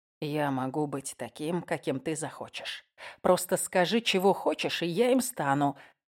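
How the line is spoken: Quiet. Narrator (Russian): тихо произнес я

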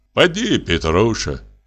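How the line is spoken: Soft fatherly voice. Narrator (Russian): сказал Денис мягким отеческим голосом

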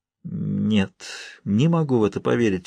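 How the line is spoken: Sleepy voice. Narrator (Russian): сонно проговорил я

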